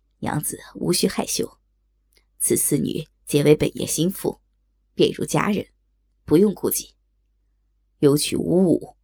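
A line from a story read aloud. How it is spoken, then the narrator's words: Laughing. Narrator (Chinese): 高衙内笑道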